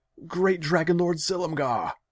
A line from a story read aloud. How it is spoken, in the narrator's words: he shouted